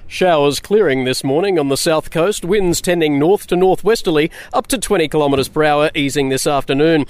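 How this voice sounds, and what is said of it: Put-on radio announcer voice. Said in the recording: “in my best radio voice”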